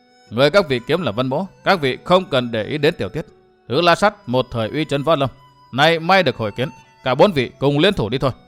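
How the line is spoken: Low voice. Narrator (Vietnamese): Vân Thiên Nhạc hạ giọng nói

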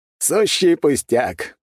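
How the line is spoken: Laughing, unable to hold back. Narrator (Russian): не выдержав, рассмеялся Распутин

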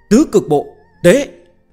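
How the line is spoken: Shouted command. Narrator (Vietnamese): Tư Bà Bà thét ra hiệu lệnh

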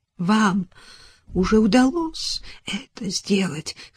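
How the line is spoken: Hoarse, barely audible woman. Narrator (Russian): хриплым голосом произнесла она, почти не слыша собственных слов

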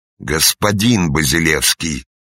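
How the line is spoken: Official's growl. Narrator (Russian): снова рыкнул исправник

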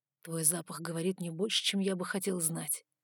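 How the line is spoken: Quiet. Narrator (Russian): сказал он тихо

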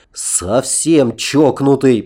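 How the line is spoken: Grumbling. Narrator (Russian): продолжал ворчать Аркадий

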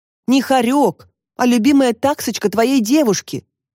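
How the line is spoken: Snapped. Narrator (Russian): огрызнулась Татьяна Александровна

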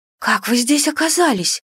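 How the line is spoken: Frightened question. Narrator (Russian): спросила я, испуганно

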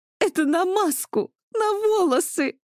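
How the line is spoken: Moaning, breathless with laughter. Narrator (Russian): Задыхаясь со смеху, простонала Мария

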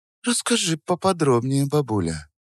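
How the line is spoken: Soft voice with steel. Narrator (Russian): сказала она мягким голосом, в котором слышался металл

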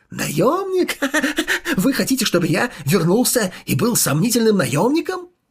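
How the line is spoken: Manic laughter. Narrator (Russian): Конка потерял рассудок, он смеялся как сумасшедший

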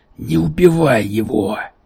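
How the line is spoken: Hoarse. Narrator (Russian): прохрипел Йонсен

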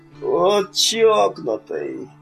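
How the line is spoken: Moaned. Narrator (Russian): простонал Миган

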